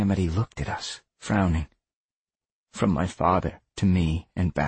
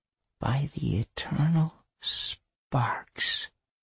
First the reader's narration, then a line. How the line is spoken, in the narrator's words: Calamity whispered